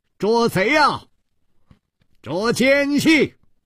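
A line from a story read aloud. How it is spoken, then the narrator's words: Loud shouting. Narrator (Chinese): 大声地呼喊道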